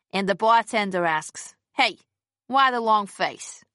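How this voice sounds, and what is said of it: Put-on New York accent. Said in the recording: “in her best New York accent”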